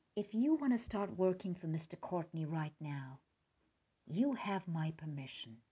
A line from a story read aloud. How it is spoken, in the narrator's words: After a long silence, Mom softly said